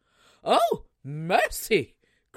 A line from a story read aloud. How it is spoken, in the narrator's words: cried the mother